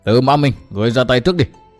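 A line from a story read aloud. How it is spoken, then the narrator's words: Loud shout. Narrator (Vietnamese): Xuyên tâm sứ giả quát lớn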